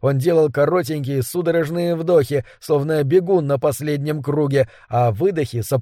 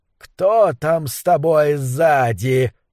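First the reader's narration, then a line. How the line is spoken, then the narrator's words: Booming, frightening voice. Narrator (Russian): гудящим и страшным голосом спросил Мэнкс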